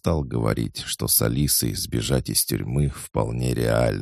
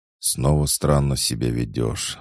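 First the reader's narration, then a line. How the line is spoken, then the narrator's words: Sighing. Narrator (Russian): вздохнула Ната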